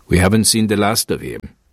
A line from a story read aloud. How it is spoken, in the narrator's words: said grimly